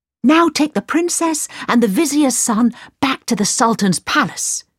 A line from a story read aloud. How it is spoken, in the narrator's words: cried Aladdin